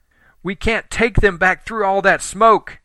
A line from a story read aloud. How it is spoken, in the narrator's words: Helen yelled